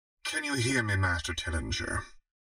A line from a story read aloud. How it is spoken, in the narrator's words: He mumbled drunkenly